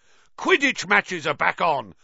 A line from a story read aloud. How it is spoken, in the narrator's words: roared Wood excitedly